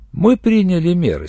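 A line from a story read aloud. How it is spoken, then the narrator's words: Calm interjection. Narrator (Russian): спокойно вмешалась я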